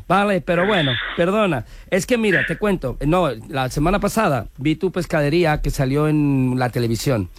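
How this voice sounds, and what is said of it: Put-on Galician Spanish accent. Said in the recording (Spanish): “pon acento galego. ... ya se me centra el acento gallego”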